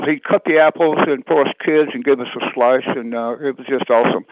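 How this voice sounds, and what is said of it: Southern US accent. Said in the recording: “I was in South Georgia, and y'all can't tell by my accent, of course”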